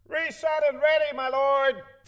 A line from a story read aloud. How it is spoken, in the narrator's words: The sound effects man in the corner shouted